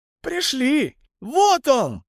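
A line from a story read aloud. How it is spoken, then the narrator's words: Shouting. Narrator (Russian): закричал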